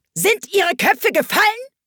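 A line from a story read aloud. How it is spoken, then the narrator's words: Queen screaming at someone. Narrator (German): schrie die Königin sie an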